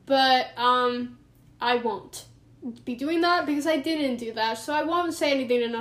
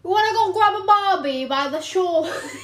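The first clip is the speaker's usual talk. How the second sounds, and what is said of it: Put-on Australian accent. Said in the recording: “I was going to try and perfect my Australian accent ... You said you weren't going to do it, and then you said mate”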